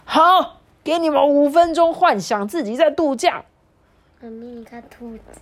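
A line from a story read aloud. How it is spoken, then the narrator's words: Wild howling shout. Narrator (Chinese): 马戏团的团长鬼吼鬼叫的说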